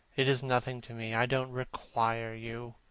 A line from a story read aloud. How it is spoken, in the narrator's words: said Campbell coldly